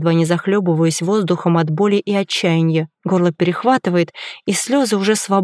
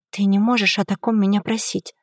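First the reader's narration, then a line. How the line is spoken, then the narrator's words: Barely audible, broken whisper. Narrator (Russian): Шепчу я едва слышно, чувствуя себя полностью разбитой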